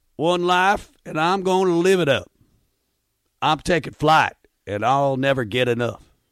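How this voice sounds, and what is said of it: Put-on country accent. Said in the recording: “read the lyrics to today's song, Up Until the Hook, in a country accent with this voice ... In a country accent.”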